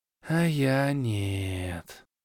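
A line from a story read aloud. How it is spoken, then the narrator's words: Drawl, bald elf. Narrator (Russian): протянул лысый эльф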